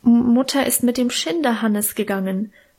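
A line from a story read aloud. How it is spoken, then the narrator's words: Stammering. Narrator (German): stammelte ich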